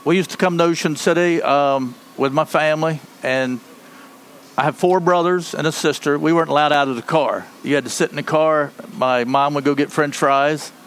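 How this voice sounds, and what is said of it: Eastern Shore accent, slightly southern. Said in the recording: “You have, like, such a great Eastern Shore... Because it's kind of a southern accent... it's kind of southern, but it's not... It's not southern. It's Eastern Shore.”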